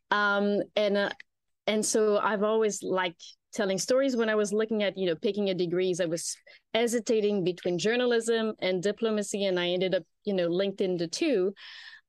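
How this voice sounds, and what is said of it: French accent. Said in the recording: “I started my career with the French Foreign Service, as I'm sure the listener will be able to quickly tell with the accent.”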